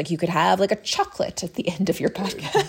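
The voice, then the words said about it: Put-on British accent. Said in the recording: “Did you just put on a British accent for this?”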